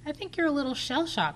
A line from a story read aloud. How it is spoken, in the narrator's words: he says, chuckling